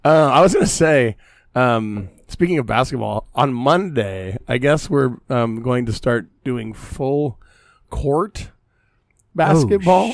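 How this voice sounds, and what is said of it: Damaged, rough voice. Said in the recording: “My voice is still fucked up”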